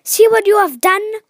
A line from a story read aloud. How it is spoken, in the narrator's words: cried the milkmaid angrily